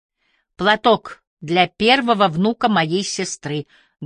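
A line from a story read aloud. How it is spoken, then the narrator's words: Plain. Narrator (Russian): говорит миссис Бакстер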